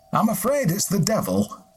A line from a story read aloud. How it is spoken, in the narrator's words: Hallowes said